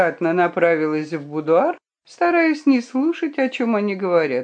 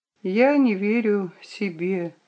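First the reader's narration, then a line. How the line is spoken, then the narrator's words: Quiet. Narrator (Russian): ответила она тихо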